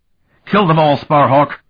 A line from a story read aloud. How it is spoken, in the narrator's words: said fiercely